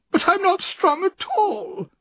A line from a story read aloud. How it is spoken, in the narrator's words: she cried miserably